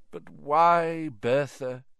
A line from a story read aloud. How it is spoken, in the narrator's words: said Dumbledore sadly